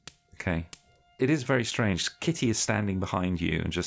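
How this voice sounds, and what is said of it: Usual voice. Nothing is said of it.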